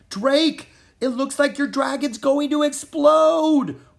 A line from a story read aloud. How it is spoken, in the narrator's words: Rory yelled